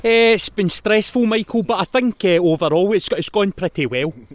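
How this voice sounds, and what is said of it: Generic Scottish pundit accent. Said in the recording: “that was like a different Scottish accent ... it's just like generic Scottish punditry”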